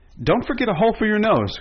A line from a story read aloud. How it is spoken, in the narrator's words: cried Betsy